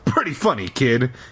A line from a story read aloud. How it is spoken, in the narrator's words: she chuckled